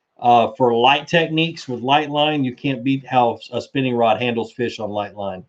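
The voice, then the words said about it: Strained, hoarse voice. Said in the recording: “I'm literally losing my voice. My throat is starting to hurt.”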